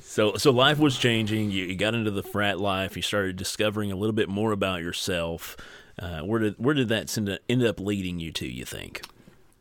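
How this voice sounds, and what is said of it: Deliberately lowered, deeper voice. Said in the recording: “I'm trying to use a deeper voice this time ... I try to tone my voice down just a little bit to sound a little sexier”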